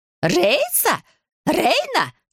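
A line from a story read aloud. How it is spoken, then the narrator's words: Shrieking. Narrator (Russian): завизжала мачеха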